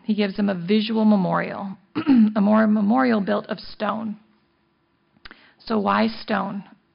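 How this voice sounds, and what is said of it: Strained, failing voice. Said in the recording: “Losing my voice.”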